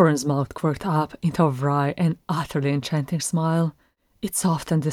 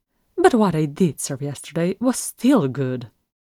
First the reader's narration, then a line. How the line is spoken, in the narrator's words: Bilbo shrugged, then added sharply